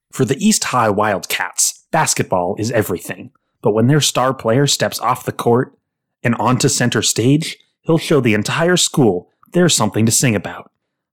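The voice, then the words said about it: Movie trailer narrator voice. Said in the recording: “Give my narrator voice. ... Not your Patrick Warburton voice. ... Almost Patrick Warburton. Go for it as much as you can.”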